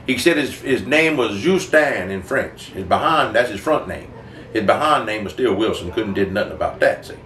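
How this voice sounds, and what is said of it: Put-on Cajun accent. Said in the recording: “I would do it with that Cajun accent ... I learned to talk like that”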